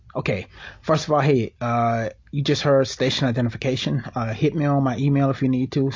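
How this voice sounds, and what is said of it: African American English dialect. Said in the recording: “as you can hear, I'm black. You hear the dialect.”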